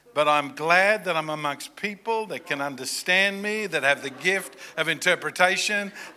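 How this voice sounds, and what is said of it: Non-American accent. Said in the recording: “I don't have the right accent ... when I say it in America, they hear the word potty ... because of my accent”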